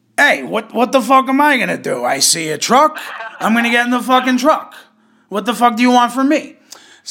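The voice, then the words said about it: Put-on Bronx/Brooklyn accent. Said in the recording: “I feel like that might be a Brooklyn accent... He's from the Bronx, so it would be like”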